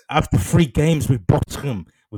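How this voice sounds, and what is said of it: Put-on Spanish accent with lisp. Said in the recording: “With mad lisps and, you know, that Spanish accent”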